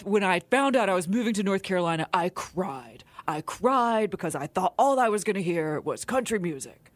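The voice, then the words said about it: Imitates another person's voice. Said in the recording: “Is that a good impersonation? ... Good. That's pretty good.”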